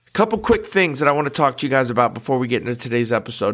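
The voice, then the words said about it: Nasal, congested voice from a cold. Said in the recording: “I have a little bit of a cold, so I'm a little nasally.”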